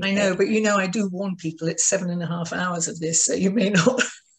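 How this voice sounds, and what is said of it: Speaks with a distinct pleasant accent. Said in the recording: “you have a wonderful accent ... I love the accent.”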